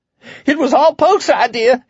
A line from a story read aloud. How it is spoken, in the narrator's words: screamed